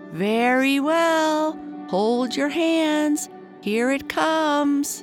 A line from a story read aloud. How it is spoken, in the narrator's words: Tom called out as loud as he could